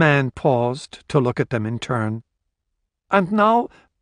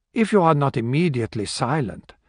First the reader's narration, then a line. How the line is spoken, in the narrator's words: told him coolly